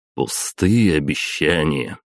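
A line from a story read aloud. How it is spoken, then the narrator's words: Mocking drawl. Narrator (Russian): Издевательски протянул я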